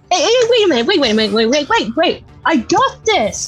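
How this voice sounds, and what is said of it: Screaming excitedly. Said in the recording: “he's screaming”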